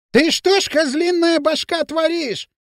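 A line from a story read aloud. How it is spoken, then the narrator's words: Shrill shout. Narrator (Russian): визгливо закричал Дутов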